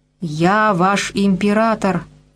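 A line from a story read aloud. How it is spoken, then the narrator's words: Yell. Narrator (Russian): заорал он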